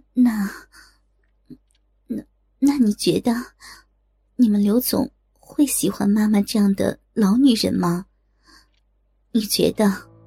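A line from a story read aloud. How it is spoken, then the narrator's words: Tearful, choked. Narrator (Chinese): 李娟带着哭腔，对刘玉玲说着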